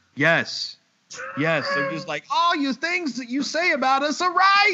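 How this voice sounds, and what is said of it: Usual voice. Nothing is said of it.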